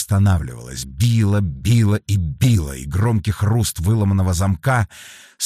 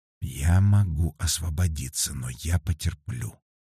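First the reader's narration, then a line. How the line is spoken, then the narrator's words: Whispered. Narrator (Russian): прошептала Лера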